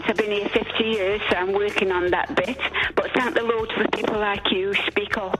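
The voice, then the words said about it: Italian accent. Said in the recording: “I reckon that Italian accent will go away in time”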